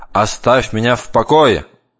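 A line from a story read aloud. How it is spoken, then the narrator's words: Pitiless shout. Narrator (Russian): тот гнал брата безо всякой жалости и кричал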